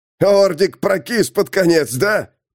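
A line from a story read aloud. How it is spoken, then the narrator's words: Guessing, cackling like hyena. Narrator (Russian): предположил Фластырь и захохотал, как гиена в логовище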